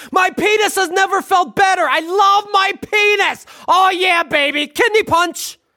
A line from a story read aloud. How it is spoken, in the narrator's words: the husband starts barking like a dog as he yells